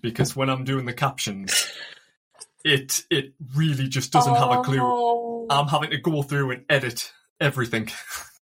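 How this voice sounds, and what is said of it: County Durham English accent. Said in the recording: “I'm in love with your accent... I'm from County Durham, and I wish TikTok shared your love for my accent”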